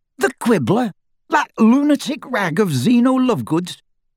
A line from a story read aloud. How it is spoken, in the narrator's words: he spluttered